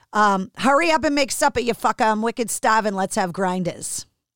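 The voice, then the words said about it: Put-on Boston accent. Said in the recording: “the Boston accent”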